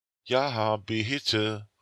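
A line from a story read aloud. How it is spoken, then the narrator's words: Emphatic call. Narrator (German): rief er betont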